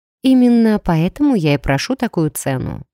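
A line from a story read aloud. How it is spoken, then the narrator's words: Calm answer. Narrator (Russian): спокойно ответила я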